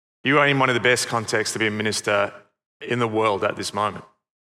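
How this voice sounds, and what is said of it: Noticeable foreign accent. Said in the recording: “you may not have heard it because of my accent”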